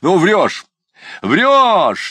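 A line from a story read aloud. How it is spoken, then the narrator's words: Shouted again. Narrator (Russian): закричал опять Ноздрев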